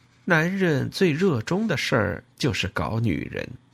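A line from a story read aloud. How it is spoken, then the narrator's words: Sarcastic, sighing. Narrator (Chinese): 用满是讽刺的语气说，叹了口气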